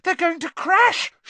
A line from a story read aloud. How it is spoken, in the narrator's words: shrieked Hermione